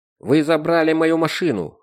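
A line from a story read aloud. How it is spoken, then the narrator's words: Barked. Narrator (Russian): рявкнул он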